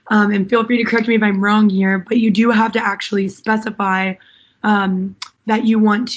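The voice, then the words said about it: Hoarse, partly lost voice. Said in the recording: “my voice is a little gone”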